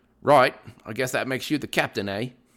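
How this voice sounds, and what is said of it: Bad put-on British accent. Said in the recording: “That was a horrible British accent, I know.”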